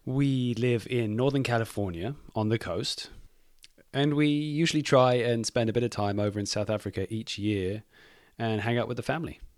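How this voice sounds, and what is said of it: English accent, mixed by travel. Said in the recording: “I'm English. I don't know if you can tell from my accent... It's become a bit of a mess amongst my travels.”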